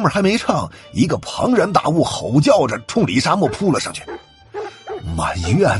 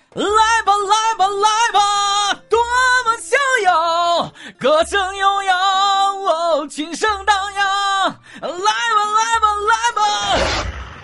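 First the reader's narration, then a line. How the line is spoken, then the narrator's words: Loud howling song. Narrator (Chinese): 他 大声嚎叫起来，还在唱歌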